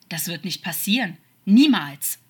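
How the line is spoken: Angry, snake-like hiss. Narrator (German): sagte Crawley noch immer wütend, einen zischenden Laut am Ende zu hören, wie es bei einer Schlange der Fall war

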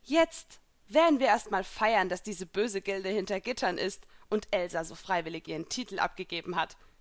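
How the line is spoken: Giggling. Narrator (German): kicherte ich

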